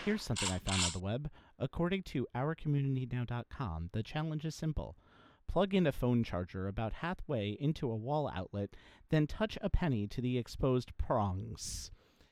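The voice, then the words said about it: Imitates a voice assistant. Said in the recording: “in my best Alexa voice.”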